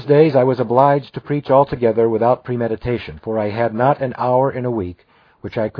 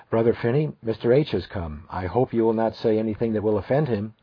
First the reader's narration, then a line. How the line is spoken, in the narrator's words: Gillette whispered to me, said